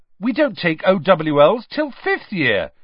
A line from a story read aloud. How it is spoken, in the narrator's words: said Dean Thomas indignantly